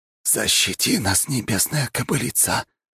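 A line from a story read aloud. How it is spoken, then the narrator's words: Whisper. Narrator (Russian): прошептал Аяс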